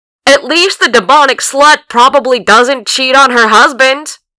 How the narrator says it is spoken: he stuck his head out of his door and yelled down the street

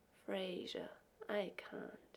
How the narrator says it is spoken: he said softly

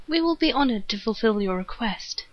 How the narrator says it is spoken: he stated happily

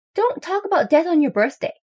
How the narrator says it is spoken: yells Thea

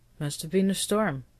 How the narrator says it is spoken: Cameron muttered

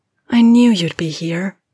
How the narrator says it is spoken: Andy breathed

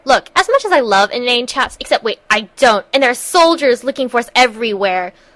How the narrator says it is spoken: McKay snapped

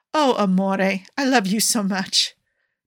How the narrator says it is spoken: Paolo said, desperately trying to hold back laughter

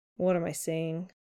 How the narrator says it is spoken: Peter mutters

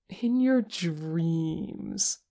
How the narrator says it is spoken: Porsche cooed

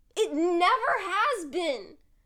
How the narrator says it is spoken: Mike yells over both of their heads

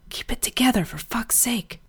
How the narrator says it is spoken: Brian hissed

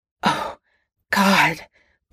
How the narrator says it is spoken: choked out, going stiff as a board

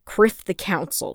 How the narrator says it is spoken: Feemore snapped

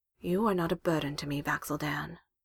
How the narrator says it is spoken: Gilmore looks into his eyes and says solemnly

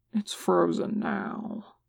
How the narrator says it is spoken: he says, his voice dropping low

